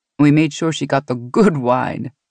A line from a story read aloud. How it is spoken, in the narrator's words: she laughed